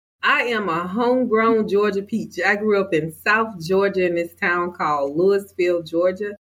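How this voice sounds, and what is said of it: Southern US accent. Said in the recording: “I hear a similar, like, you know, sort of accent in your voice to mine being from Alabama”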